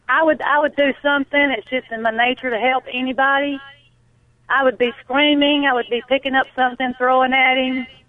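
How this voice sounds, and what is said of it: Noticeable regional American accent. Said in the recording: “I love your accent ... My wife's from Tennessee. I love it. Beautiful.”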